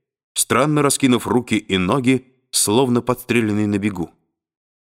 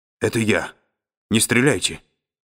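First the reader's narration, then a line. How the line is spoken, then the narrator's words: Strangled attempted whisper. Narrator (Russian): Мичман говорил придушенным голосом, долженствовавшим изобразить шепот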